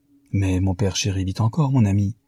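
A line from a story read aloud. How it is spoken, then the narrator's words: Plain. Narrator (French): dit sa femme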